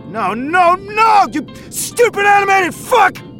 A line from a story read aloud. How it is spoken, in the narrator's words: He yelled